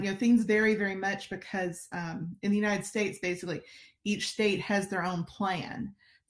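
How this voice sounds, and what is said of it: Alabama accent. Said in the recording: “I'm originally from Alabama, as you might could tell from my incredible accent.”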